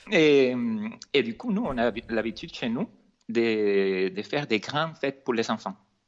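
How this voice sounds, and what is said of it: Venezuelan accent speaking French, sing-song. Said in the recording (French): “je suis d'origine vénézuélienne ... il y a un petit accent qui chante ... un petit accent qui est pas si petit que ça”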